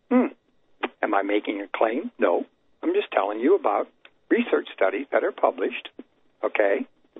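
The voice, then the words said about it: Strained, hoarse voice. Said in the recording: “I've been talking on so many radio shows, I'm losing my voice.”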